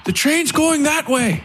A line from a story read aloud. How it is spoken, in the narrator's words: Elam shouted to the priest